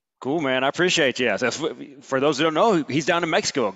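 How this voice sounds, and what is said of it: Southern American accent. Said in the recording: “I like your accent, and I like the people in Alabama”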